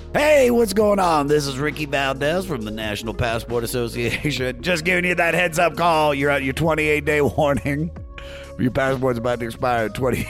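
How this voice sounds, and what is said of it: Imitates an official phone caller. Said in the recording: “impersonation of the guy calling”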